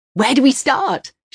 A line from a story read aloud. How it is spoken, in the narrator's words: She yells eagerly